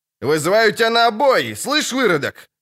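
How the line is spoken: Shouted. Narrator (Russian): крикнул цикада

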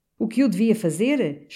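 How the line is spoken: Angry giant exclaiming. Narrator (Portuguese): exclamava o agigantado, brandindo o punho

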